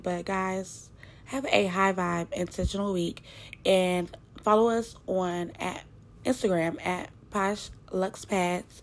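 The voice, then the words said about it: Slightly congested, nasal voice. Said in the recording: “I'm sorry if I sound a little congested. ... My sinuses are really bothering me.”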